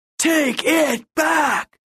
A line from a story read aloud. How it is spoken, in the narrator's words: the PA roared